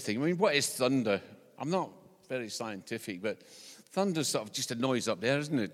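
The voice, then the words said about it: Scottish accent. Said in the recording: “because I'm from Scotland, this is not an English accent. It's not an impediment. It's an accent.”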